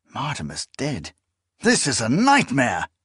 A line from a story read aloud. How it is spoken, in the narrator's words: Confis exclaimed